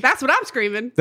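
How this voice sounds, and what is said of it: Southern accent. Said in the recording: “I can hear my southern accent when I'm doing it.”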